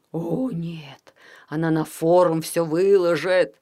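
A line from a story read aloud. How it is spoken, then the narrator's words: Groaning. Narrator (Russian): простонал Лепот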